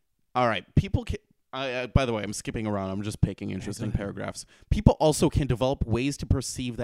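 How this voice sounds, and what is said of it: Usual voice. Nothing is said of it.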